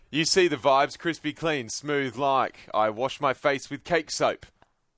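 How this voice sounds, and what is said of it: Put-on English accent. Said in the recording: “I'm just going to imitate your accent. ... Is he from England? ... He is.”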